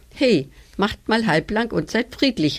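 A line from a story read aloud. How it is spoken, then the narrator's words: Called out. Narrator (German): rief Mia, die Streitereien nicht leiden konnte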